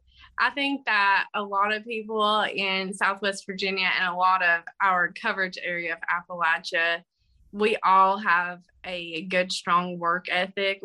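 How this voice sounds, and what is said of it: Southwest Virginia Appalachian accent. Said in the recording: “we've got the accent. He doesn't really have too much of an accent. He's jealous of my accent.”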